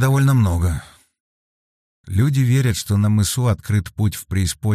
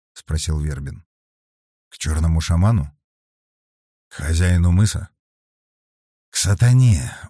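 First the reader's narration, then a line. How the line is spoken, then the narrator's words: Very quiet answer. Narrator (Russian): очень тихо ответил Алексей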